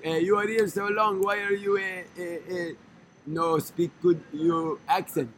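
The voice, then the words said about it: Put-on Israeli accent, broken English. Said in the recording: “One of the Israelis on the tour was making fun of my accent. He's like”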